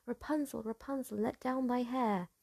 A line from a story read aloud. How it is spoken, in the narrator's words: said he ... cried